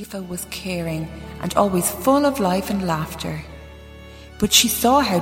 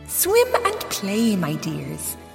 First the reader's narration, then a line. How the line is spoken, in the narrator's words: she told them, her voice as sweet and thick as honey